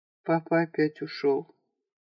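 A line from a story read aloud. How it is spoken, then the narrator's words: Muffled, hollow voice. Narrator (Russian): глухо произнесла Наташа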